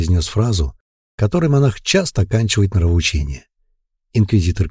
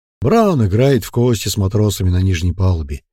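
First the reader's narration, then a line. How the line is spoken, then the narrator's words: Plain. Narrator (Russian): ответил инквизитор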